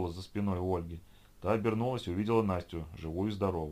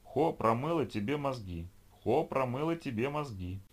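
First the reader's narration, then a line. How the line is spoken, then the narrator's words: Squeaky haughty taunt. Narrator (Russian): Пропищала порхающая в воздухе Лиша, надменно хихикая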